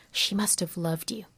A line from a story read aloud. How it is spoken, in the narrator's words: she whispers